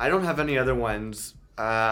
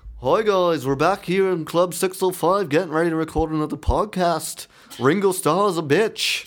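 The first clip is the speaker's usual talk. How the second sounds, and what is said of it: Imitates another person's voice. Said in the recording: “I do like a really bad Beatles impression, like John Lennon ... That's decent. ... That's pretty good.”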